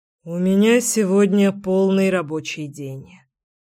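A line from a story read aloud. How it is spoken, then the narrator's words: Regretful muffled sigh. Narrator (Russian): с сожалением выдохнул Кир в мою макушку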